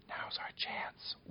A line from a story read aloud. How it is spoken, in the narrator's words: whispered Popoff